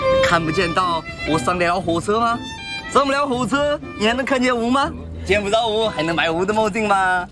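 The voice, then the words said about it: Southern Chinese accent. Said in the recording (Chinese): “你的口音搁哪儿的呀？咱俩听不明白啊。 ... 你一听他就是南方人。”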